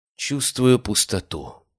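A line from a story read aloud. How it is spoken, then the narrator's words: Sigh. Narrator (Russian): вздохнул Биркин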